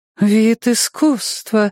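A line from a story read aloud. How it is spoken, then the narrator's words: Admiring breathless exhale. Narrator (Russian): восхищенно выдохнула коротко стриженная шатенка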